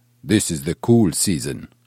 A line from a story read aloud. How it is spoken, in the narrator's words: one of the guards grunted